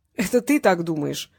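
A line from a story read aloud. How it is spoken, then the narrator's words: Laughing. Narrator (Russian): засмеялся Васильев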